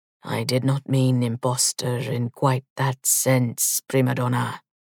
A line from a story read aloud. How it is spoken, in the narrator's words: lowering his voice, he added